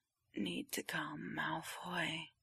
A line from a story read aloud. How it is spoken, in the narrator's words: Around the biscuit, Potter moans